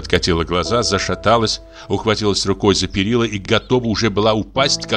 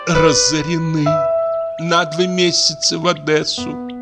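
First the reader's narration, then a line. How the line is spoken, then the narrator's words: Moaned. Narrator (Russian): простонала Лидия Егоровна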